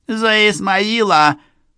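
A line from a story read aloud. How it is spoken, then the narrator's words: Angry squeak from below. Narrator (Russian): злобно пропищал снизу черевичка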